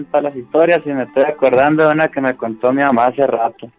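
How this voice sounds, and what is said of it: Chihuahua Mexican Spanish accent. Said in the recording (Spanish): “De acá de Chihuahua. Se escucha el, el, acento, ¿no?”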